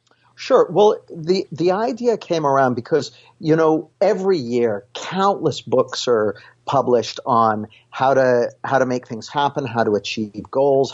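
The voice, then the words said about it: Western Canadian accent. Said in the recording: “I grew up on the west coast of Canada ... I've still got the accent I grew up with”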